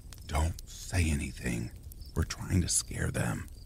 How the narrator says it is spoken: whispered

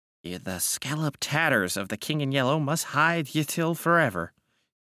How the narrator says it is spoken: he muttered

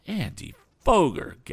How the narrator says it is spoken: gasped Tom

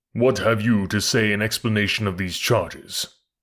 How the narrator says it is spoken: he asked in a deep and terrible voice

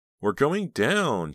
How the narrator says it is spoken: wailed, terror

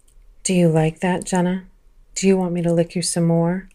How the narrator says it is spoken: whispered

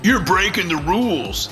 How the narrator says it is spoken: the demonic harlequin shouted

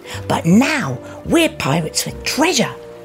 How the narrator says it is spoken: Crawford exclaimed

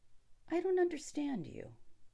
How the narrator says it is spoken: he said calmly

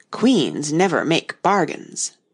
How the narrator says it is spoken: the Red Queen drew herself up rather stiffly and said

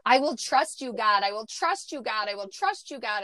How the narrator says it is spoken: rooting deep within my soul where I was yelling it

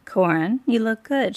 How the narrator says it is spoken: she said, her voice cool and composed

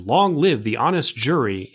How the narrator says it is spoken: People shouted

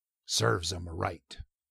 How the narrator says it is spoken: Crimp growled ungraciously

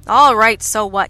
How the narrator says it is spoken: he snapped

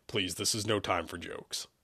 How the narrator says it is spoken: he shot sternly

